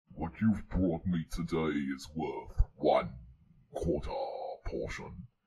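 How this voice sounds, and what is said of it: A not very good character impression. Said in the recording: “It's not a very good impression.”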